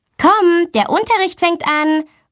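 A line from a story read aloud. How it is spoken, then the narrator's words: Calling out. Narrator (German): ruft sie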